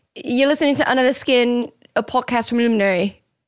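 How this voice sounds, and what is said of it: Russell Brand impression, hard to understand. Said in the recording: “almost do Russell Brand ... Russell Brand dialect ... That's how you know you've done a good Russell Brand, is when no one can understand you.”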